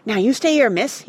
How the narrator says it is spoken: he panted

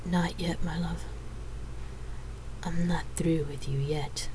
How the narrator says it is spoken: whispered seductively into her ear

